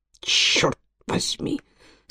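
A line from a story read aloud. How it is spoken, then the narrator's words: Passionate mutter to himself. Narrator (Russian): со страстью пробормотал он сам себе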